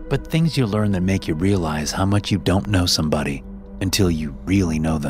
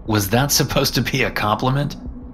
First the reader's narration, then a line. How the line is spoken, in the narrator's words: I laughed in disbelief